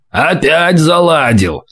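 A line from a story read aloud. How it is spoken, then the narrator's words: Displeased grumble. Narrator (Russian): недовольно проворчали слева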